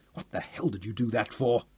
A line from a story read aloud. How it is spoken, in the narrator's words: He snarled